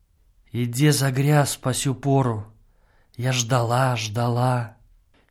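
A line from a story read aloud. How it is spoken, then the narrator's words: Woman's voice. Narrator (Russian): голос женщины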